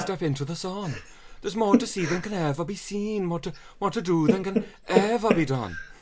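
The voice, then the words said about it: Put-on Welsh accent. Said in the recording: “let us know on a scale of 1 to not very good how that was... I'm just glad that it stayed relatively Welsh, because normally I drift towards Punjab when I try and do a Welsh accent... How have you been practicing this Welsh accent?”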